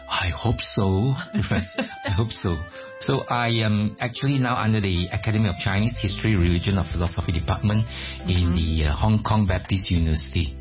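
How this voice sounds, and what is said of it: Malaysian English accent. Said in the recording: “Your accent is quite funny ... I'm a Malaysian and this is a normal Malaysian accent”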